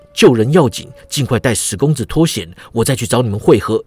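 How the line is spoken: Soft. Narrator (Chinese): 郑恒洲轻声道

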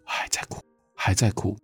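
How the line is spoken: Soft murmur. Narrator (Chinese): 评委一等兵就小声呢喃地说

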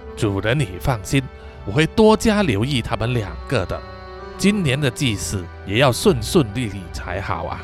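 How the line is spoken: Sighing reply. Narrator (Chinese): 法蒂玛叹了一口气呀，回答说

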